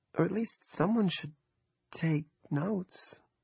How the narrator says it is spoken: Andrea asked timidly

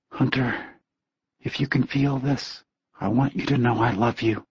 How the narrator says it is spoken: Jesse whispered softly into the night

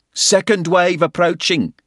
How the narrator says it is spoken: shouted

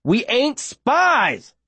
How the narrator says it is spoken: I shout

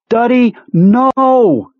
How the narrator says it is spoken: she screamed

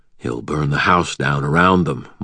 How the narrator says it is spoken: Michael said quietly

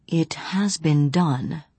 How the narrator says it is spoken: Johnny said softly

